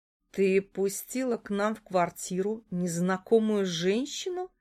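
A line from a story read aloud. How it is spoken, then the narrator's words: Through gritted teeth. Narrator (Russian): процедила Яна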